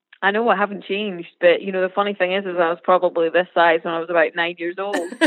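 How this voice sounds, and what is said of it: Adorable regional accent. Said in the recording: “I just love your accent ... It's adorable.”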